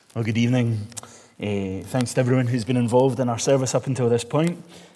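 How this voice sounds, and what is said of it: Glaswegian Scottish accent. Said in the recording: “you'll need to do your best with the Glaswegian accent.”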